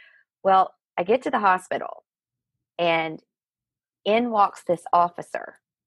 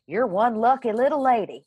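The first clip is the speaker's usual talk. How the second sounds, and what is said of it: Thick Southern accent. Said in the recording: “Picture it in your daddy's voice ... that big, thick Southern accent coming through.”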